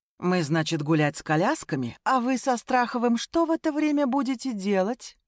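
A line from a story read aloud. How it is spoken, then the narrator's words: Purring. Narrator (Russian): Промурлыкала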